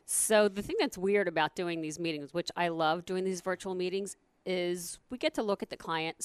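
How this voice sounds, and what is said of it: Hoarse, croaky voice. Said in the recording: “I'm hoping my voice is going to hold out. All of a sudden, I have like a frog here in my throat”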